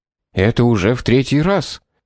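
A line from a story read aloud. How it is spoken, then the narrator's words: Agitated hiss, short man. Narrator (Russian): прошипел какой-то низенький человек в страшном волнении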